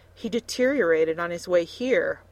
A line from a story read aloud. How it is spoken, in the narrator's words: Milena gasped